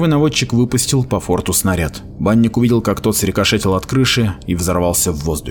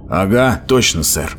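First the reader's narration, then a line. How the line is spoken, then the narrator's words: Grumbled. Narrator (Russian): проворчал Меген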